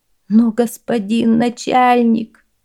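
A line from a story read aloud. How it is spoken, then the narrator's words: Moaning. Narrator (Russian): застонал Лю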